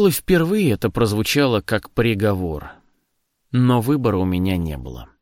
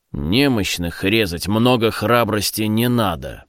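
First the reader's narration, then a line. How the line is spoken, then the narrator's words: Grumbling, calming down. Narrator (Russian): проворчал Лендерман, успокаиваясь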